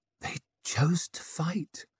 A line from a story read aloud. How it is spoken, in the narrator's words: whispered